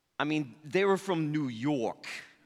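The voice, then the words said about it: Put-on New York accent. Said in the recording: “that's my spot-on New York accent.”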